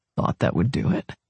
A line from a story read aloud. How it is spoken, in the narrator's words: he muttered